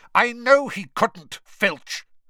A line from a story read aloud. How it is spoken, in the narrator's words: Snape snapped